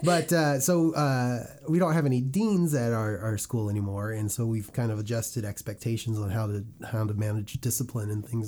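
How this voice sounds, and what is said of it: Hoarse voice from a cold. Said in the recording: “apologize for my voice. I've been fighting a cold for the last week, so this might not be the most phonically pleasing sound.”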